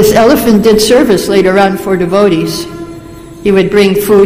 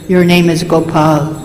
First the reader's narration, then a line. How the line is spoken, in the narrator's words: He whispered in his ear